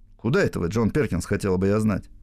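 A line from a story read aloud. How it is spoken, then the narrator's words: Irritated question. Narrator (Russian): спросила Кэти раздраженным тоном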